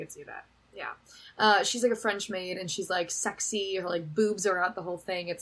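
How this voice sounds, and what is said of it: Usual voice. Nothing is said of it.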